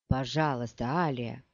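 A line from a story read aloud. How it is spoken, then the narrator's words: Muttering. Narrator (Russian): бормотал он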